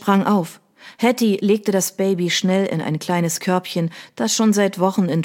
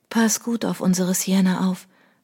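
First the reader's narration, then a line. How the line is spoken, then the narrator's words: Whispering. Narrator (German): wisperte sie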